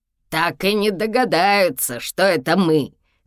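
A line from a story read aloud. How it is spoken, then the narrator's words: Shouting. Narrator (Russian): кричал Еся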